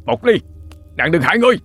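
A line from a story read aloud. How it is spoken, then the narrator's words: Shouting through clenched teeth. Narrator (Vietnamese): Cậu đại gia cắn răng hét lớn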